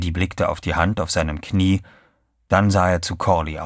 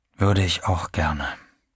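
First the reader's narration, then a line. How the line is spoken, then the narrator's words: Said quietly. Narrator (German): sagte er leise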